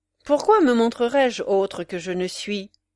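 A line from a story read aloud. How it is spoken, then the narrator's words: Cold reply. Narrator (French): répondit froidement Octave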